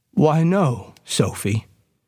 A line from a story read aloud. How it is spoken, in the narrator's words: said Mr